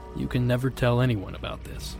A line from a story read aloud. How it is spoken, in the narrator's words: in a very serious tone, uttered the words